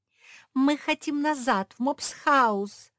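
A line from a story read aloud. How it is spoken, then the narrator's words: Yelled. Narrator (Russian): завопила Жози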